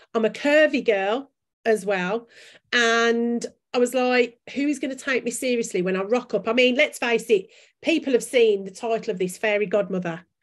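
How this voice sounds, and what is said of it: Strong Birmingham (Brummie) accent. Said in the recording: “I speak with a really strong Brummie accent. ... strong Brummie accent.”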